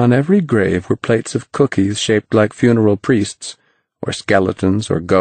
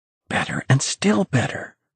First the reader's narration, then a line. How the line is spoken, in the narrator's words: whispered Ralph